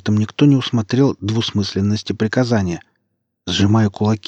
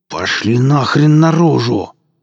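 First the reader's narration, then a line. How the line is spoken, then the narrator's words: Angry hiss. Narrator (Russian): зло зашипел Качака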